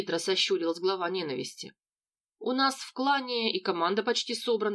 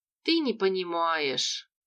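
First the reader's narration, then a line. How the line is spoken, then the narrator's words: Sigh. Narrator (Russian): вздохнул Локи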